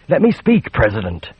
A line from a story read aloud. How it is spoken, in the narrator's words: she pleaded